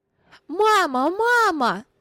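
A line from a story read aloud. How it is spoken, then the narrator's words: Child shouting. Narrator (Russian): крикнул маленький Вилли Крамер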